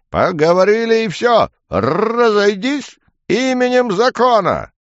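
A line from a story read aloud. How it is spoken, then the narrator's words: Loud bark. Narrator (Russian): гаркнул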